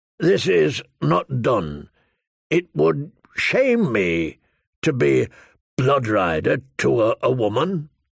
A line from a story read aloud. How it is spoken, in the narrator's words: he said hesitantly